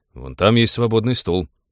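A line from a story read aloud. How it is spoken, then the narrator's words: Irritated. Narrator (Russian): раздраженно сообщил Белобрыс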